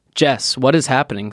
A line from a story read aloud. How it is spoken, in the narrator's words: says Caroline